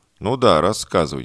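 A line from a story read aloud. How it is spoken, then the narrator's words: Skeptical snort. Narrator (Russian): недоверчиво хмыкнул смотритель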